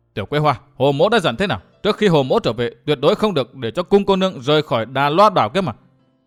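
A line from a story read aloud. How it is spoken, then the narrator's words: Angry. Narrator (Vietnamese): Phí Thiên Cửu lại nhìn Tiểu Quế Hoa tức giận nói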